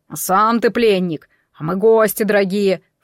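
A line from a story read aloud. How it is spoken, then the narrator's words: Snorted. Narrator (Russian): фыркнул Белояр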